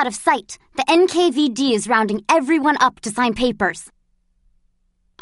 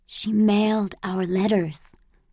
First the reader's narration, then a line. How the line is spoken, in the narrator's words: whispered Mother, beaming